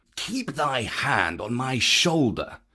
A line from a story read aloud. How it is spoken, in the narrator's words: Bagheera whispered